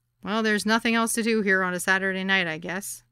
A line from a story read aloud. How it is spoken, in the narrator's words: said